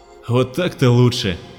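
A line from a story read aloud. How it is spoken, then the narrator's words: Colonel's relieved sigh. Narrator (Russian): облегченно вздохнул полковник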